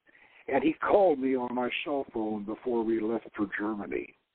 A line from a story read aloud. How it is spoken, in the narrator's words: she murmured